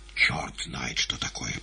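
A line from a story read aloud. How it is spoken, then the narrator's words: Muttered. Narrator (Russian): пробормотал Кузьмин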